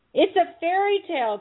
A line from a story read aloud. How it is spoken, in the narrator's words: cried science